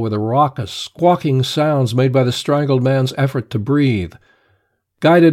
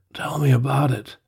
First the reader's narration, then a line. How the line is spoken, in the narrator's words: managed to say faintly